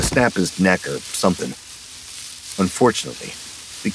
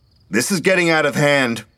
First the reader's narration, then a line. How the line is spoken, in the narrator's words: he called out